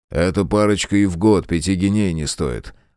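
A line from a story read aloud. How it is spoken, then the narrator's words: Grumbling. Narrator (Russian): проворчал Фрейзер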